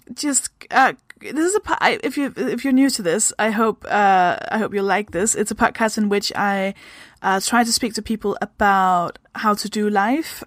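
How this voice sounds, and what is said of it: Danish accent. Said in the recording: “I am also from Denmark. I hope that explains the weird kind of accent thing that I have going on.”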